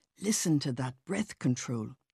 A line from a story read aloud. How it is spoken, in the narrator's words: my mother would whisper